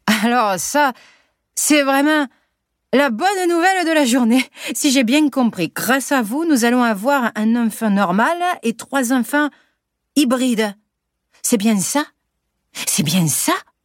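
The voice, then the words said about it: Sunny southern French accent. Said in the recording (French): “il reprend, avec son accent ensoleillé”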